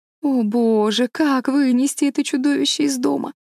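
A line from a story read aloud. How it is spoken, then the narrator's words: Disgusted moan. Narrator (Russian): простонала Энн, содрогаясь от отвращения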